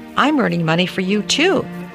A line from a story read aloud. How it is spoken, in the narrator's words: little six-year-old Bonnie Lee chirped